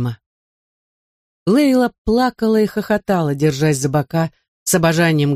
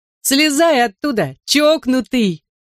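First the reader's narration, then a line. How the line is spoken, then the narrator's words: Shouting. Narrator (Russian): крикнула Иэну Лейла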